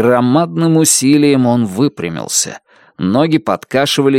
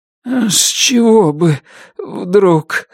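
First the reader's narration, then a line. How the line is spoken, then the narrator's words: Shaky trembling voice. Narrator (Russian): сказал Туз нетвердым голосом, дрожавшим в такт сбивчивому сердцебиению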